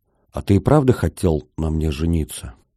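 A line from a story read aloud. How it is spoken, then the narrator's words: Quiet question. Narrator (Russian): девушка тихо спросила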